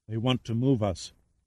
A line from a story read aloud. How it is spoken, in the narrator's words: she told him softly